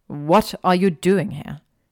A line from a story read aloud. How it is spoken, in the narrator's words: he asked irritably